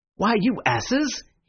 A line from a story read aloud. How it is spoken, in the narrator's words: he cried